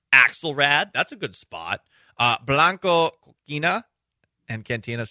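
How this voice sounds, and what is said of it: Attempted Spanish accent. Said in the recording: “Sorry, I don't. Know how to do a Spanish accent, but at least I'm trying, huh?”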